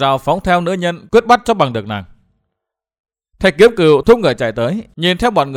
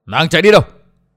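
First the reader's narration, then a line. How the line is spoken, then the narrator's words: Group shouting harshly. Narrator (Vietnamese): Bọn người áo đen quát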